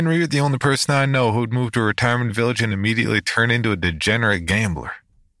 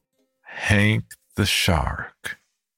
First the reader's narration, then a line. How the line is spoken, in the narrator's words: I repeated slowly